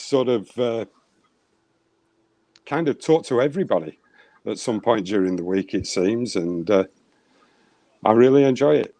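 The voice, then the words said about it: Non-Minnesotan English accent. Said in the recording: “you don't necessarily have that Northern Minnesota Fargo accent”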